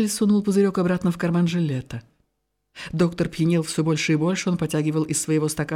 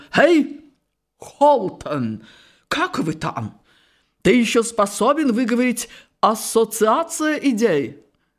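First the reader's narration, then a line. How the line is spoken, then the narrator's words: Sudden shout. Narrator (Russian): Вдруг он крикнул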